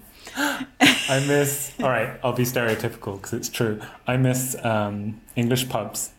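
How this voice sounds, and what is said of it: English Oxford accent. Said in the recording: “my Oxford accent ... the stereotypes of the UK”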